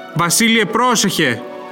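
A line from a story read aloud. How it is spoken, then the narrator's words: Anxious distant shout. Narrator (Greek): φώναξε με αγωνία από μακριά ο Μουσούρ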